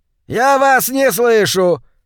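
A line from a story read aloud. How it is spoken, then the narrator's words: Shouting over shoulder. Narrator (Russian): Шейфер снова прокричал себе за спину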